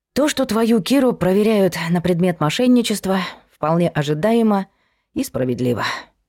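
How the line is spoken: Sighing. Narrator (Russian): вздохнула мама

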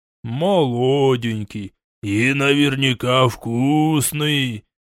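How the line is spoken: Low growl. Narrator (Russian): Искатели хищно оскалились, глухо зарычали

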